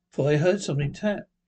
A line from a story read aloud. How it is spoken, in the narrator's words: he said with a shamefaced laugh